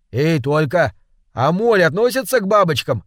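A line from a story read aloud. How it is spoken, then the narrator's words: Shout. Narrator (Russian): крикнул Жора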